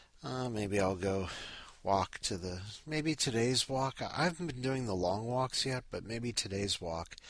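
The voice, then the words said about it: Tired, groggy early-morning voice. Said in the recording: “You can hear it. You can hear it in my voice. I'm up way too early.”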